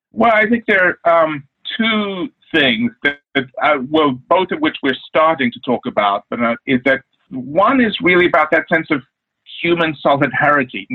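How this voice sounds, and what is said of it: South African accent. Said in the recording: “you don't have a Texas accent like some of us here in Dallas do. And you're from South Africa, right?”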